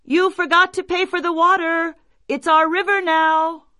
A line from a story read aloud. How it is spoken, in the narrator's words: they cried